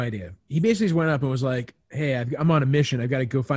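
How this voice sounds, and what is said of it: Usual voice. Nothing is said of it.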